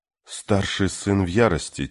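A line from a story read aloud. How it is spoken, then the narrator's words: Quiet young woman. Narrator (Russian): тихо сказала девушка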